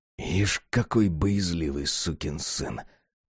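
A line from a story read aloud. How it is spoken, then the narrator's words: Muttering. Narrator (Russian): пробормотал Джек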